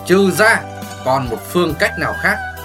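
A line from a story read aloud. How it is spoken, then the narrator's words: Smiling. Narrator (Vietnamese): Hồ Thiết Hoa mỉm cười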